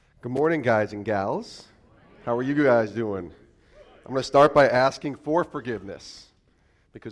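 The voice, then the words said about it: Deeper, raspy voice. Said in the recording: “my voice is a little deeper than it normally is. Got the little after effects of a cold ... the voice is still a little weird ... have a little deep voice ... my voice is raspy”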